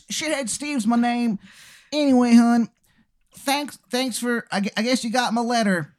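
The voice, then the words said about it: Exaggerated bad Maryland accent. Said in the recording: “worst Maryland accent you've ever heard in your life ... And again, his accent”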